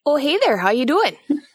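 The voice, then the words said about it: Put-on Minnesotan accent. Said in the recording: “A true Minnesotan. ... I can just do the accent fairly well.”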